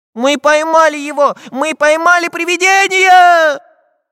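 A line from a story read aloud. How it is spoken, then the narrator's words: Cheerful shouting. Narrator (Russian): весело кричал Прутик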